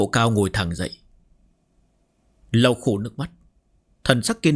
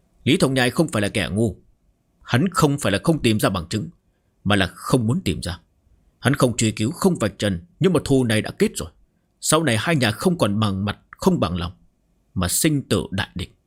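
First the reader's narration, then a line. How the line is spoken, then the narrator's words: Cold interruption. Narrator (Vietnamese): Úc Tiểu Quý lạnh lùng cắt ngang lời Úc Mộ Cao đáp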